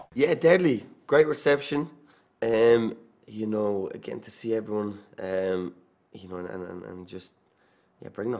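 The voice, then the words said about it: Irish accent. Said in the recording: “bringing the Irish to the MCU you got to keep the accent”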